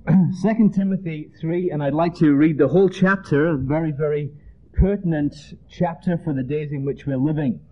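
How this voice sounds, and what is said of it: Mixed Northern English accent. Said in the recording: “I'm actually from England ... from the north of England, a place called Leeds ... worked in Ireland for 8 years ... living in Georgia ... my accent is somewhat of a mongrel accent”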